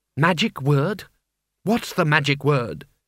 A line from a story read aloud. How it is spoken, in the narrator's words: The knocker perceptibly sneered